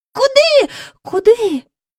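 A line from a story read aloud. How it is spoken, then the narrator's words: Cried out together. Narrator (Ukrainian): скрикнули разом Джейн і Майкл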